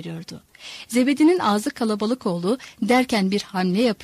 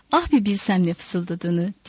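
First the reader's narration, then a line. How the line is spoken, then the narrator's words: Laughing coachman. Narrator (Turkish): diye güldü arabacı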